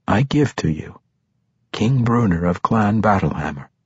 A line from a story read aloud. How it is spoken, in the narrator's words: Drizzt said